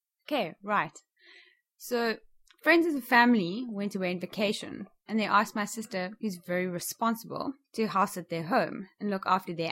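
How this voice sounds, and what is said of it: South African accent. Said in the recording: “if you detect a bit of an accent, ... is from South Africa.”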